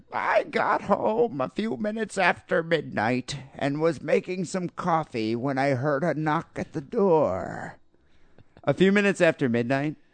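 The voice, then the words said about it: Old lady voice. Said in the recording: “I'm going to try to do my best old lady voice here.”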